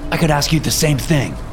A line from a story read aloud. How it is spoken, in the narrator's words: I snapped